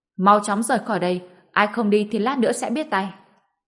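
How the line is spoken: Loud yell. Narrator (Vietnamese): người trên xe hét lớn lên

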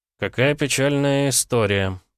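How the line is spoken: Unsympathetic drawl. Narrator (Russian): протянул без тени сочувствия

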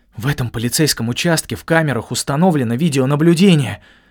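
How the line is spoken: Hiss. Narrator (Russian): прошипел

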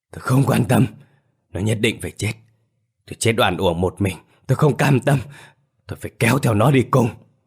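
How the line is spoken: Ghost hissing. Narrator (Vietnamese): Vòng ma Thằng Tỉnh rít

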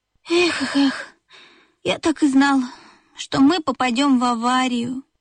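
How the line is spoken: Sighing. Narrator (Russian): вздохнул Бип

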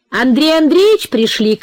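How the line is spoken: Shout. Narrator (Russian): крикнула Настя

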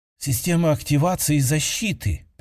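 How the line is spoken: Muttering over comms. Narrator (Russian): пробормотала по связи одна из эльфиек

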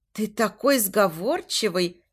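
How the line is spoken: Giggling. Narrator (Russian): хихикает она

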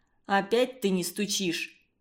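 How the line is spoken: Grumbling. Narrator (Russian): проворчал Игорь

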